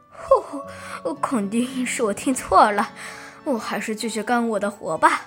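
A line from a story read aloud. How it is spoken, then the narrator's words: Laughing. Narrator (Chinese): 樱桃师傅 笑着说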